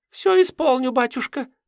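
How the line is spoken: Squeaking. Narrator (Russian): пропищал Митька, пытаясь вывернуться из захвата

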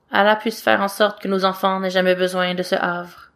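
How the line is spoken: Murmured. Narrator (French): Eva murmure

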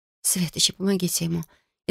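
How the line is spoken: Barely audible whisper. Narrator (Russian): Едва слышно прошептала

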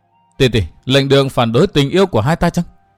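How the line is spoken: Sighing. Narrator (Vietnamese): Văn Thiên Hạo thở dài nói

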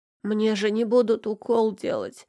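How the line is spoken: Moaning. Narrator (Russian): простонал Лёшка

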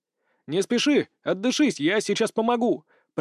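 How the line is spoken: Shouted. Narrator (Russian): прокричал Дмитрий

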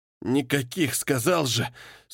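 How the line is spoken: Anguished exhale. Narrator (Russian): с мукой выдохнул сиделец

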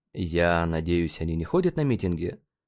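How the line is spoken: Sigh. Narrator (Russian): Мэри Джейн вздохнула

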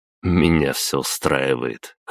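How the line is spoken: Wry grunt. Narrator (Russian): хмыкнул я

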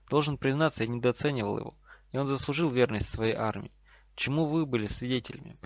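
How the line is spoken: Very calm. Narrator (Russian): Профессор Квирл по-прежнему говорил очень спокойно

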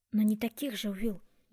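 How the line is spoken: Soft. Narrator (Russian): мягко ответила она

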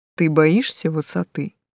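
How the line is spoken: Plain. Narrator (Russian): зачем-то спросил демон

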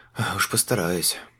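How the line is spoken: Grumbling mutter. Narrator (Russian): буркнул Лючана

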